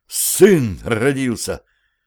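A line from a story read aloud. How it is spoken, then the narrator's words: Uncertain breath, then shouting. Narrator (Russian): неуверенно выдохнул Андрей и уже во весь голос в крик повторил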